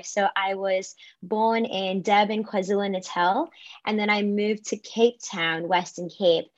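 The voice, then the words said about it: South African accent. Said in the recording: “there's an interesting little accent tied into your voice”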